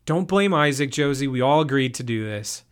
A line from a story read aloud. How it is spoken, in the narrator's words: Jason's voice boomed